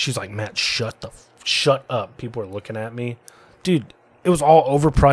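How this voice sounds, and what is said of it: Usual voice. Nothing is said of it.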